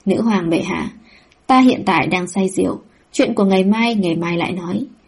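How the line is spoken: Soft amused tone. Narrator (Vietnamese): Bách Lý Thanh cười khẽ, nói

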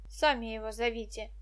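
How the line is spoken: Mutter. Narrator (Russian): буркнула она

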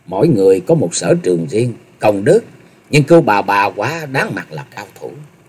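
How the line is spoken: Very low, faint smile. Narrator (Vietnamese): Ngao Trường Thanh hơi nhép mép cười, rồi hạ giọng thật thấp nói

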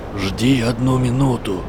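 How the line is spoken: Hoarse command. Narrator (Russian): приказал хриплый голос

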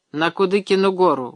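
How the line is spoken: Gruff mutter. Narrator (Russian): буркнул он

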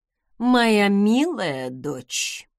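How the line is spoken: Sighing mother. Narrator (Russian): вздохнула мама

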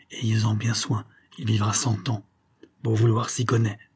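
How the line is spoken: Low voice near ear. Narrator (French): Le rebouteur lui dit à voix basse, en se penchant à son oreille

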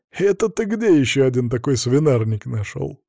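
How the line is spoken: Sincere laughter. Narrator (Russian): искренне рассмеялся Игорь

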